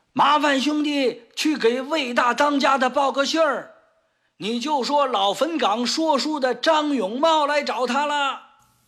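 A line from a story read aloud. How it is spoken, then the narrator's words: Loud shout. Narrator (Chinese): 张永茂…大声喊道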